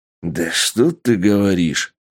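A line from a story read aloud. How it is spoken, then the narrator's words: Boss growling. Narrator (Russian): Рыкнул босс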